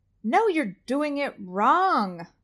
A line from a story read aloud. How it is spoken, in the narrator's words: Mimi exclaims